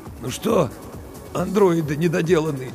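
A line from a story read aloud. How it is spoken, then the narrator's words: Hoarse. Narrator (Russian): сипло сказал Букин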